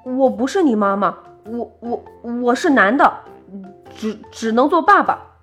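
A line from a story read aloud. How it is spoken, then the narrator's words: Terrified stammering. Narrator (Chinese): 狐狸吓呆了，结结巴巴地说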